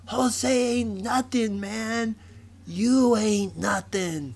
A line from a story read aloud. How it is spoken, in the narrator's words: Eddie and Ricky yelled back